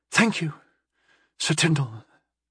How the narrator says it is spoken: she breathed

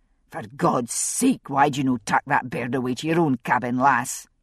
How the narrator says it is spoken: she snapped

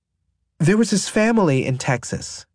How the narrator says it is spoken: she says

